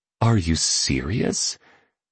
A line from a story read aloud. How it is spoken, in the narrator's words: murmured a woman seated near the stage